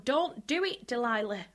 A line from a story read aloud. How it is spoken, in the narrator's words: They didn't shout